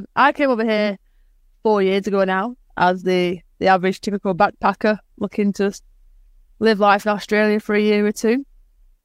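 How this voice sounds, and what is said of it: Slight softened Manchester English accent. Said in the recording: “you do have a slight accent ... I'm from Manchester in the UK ... my accent has softened a little bit, so hopefully it's not as strong as it used to be”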